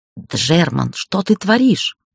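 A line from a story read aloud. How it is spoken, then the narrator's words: Hissing. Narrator (Russian): прошипел Гайер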